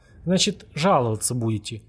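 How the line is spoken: Mock-dejected, mocking question. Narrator (Russian): Нарочито удрученным тоном, в котором сквозила явная издевка, спросил Казаков

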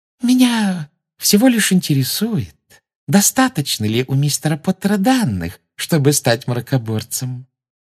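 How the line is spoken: Sugary sing-song voice. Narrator (Russian): сладким голоском пропела Амбридж

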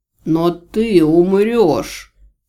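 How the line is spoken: Roaring. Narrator (Russian): взревел Аджи

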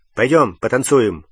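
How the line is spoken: Abrupt. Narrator (Russian): резко предложил он Гермионе

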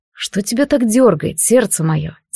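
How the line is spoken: Quiet question. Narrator (Russian): тихо спросил Карас

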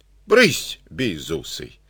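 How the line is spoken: Old man, plain. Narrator (Russian): сказал дед

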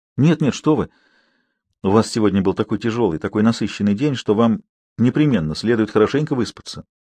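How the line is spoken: Caring tone. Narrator (Russian): заботливым тоном порекомендовала Авсанна

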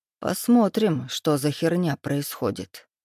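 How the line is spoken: Muttered. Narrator (Russian): пробормотал я

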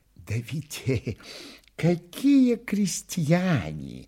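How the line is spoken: Whispered reply. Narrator (Russian): отвечал ему на это тоже шепотом Чичиков

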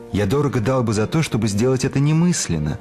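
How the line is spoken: Plain. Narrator (Russian): говорит Обтесов

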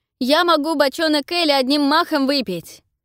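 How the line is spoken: Shouted. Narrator (Russian): крикнул один из гостей

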